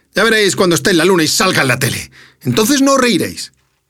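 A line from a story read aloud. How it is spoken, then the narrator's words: Angry shouting. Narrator (Spanish): Chispita … muy enfadado grita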